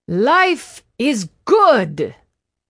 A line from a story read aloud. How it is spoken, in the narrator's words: Don Porfirio hollered